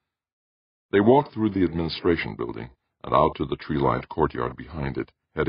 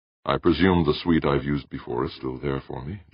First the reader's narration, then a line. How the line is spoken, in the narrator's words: Jordan said